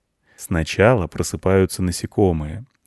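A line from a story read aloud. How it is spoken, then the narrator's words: Quiet explaining. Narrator (Russian): объяснял тихо рыбак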